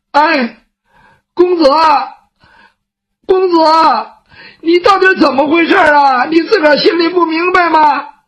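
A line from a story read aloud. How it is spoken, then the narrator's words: Crying child. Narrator (Chinese): 雨墨这个时候哭了，他毕竟是个孩子，没经过这个事儿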